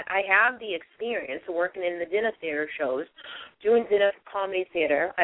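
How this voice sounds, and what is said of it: Boston accent. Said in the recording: “I have the Boston accent”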